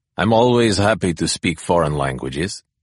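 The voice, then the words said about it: Heavy Russian accent. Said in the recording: “the Russian colonel said with a heavy accent”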